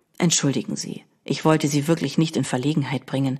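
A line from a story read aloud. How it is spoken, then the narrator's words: Quiet apologetic. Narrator (German): sagte der Fremde leise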